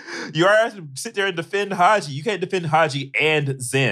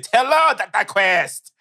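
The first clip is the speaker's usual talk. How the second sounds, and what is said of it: Put-on stereotyped foreign accent. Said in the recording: “doing that racist accent”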